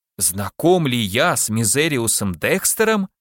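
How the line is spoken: Exclaimed. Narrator (Russian): воскликнул майор

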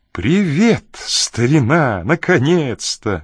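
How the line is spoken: Cheerful exclamation. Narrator (Russian): бодро воскликнул он

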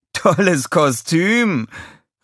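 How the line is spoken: Laughing call. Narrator (German): rief lachend

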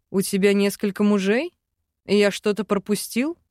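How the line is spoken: Mock grumbling, sly smile. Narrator (Russian): Ворчал для проформы Арван, хитро улыбаясь

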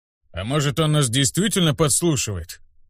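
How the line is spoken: Skeptical snort. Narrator (Russian): хмыкнул Люк

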